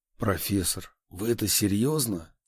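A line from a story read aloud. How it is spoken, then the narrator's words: Strained, barely forced out. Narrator (Russian): Едва сумел выдавить я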